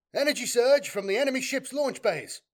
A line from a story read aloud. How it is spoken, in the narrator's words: shouted a surveyor officer